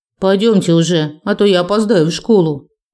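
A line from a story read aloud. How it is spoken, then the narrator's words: Grumbling girl. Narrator (Russian): буркнула старшая девочка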